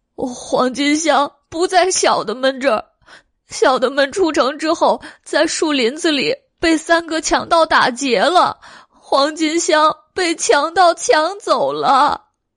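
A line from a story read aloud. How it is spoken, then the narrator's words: Crying. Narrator (Chinese): 黑花狸猫哭道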